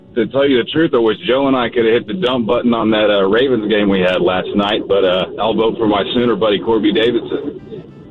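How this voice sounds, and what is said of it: Poor imitation of another person's voice. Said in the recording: “That is supposed to be the fake Troy? ... Maybe the worst impersonation we've ever heard?”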